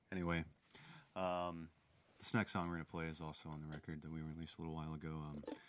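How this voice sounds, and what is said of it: Congested voice with a cold. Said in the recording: “if you can't tell, I have a little bit of a cold. ... I bet coughs don't sound so great on the radio.”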